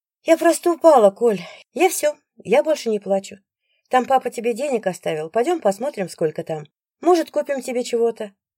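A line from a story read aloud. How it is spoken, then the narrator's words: Rapid soothing chatter. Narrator (Russian): Я тараторю, чтобы быстрее успокоиться и не пугать ребенка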